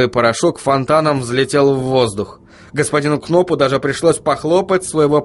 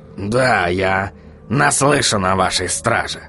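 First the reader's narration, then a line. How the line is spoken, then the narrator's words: Skeptical snort. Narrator (Russian): хмыкнул господин Кноп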